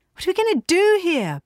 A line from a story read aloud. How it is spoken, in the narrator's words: Bee shouted